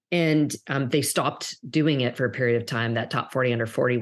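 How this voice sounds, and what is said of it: Slight Canadian accent. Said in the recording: “if you'll hear maybe a bit of an accent, I'm actually originally from Canada”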